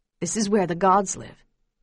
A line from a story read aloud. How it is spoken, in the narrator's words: he said quietly